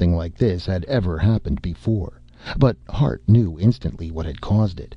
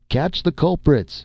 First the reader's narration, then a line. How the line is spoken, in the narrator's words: he shouted